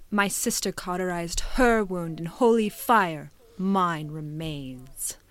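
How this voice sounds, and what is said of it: Dramatic game character voice impression. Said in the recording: “we're gonna do my impression... she's so dramatic, literally”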